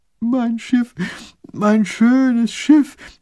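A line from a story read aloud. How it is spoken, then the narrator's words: Young wailing. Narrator (German): jammert der kleine Großherzog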